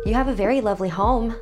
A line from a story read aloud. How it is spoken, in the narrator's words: I blurted out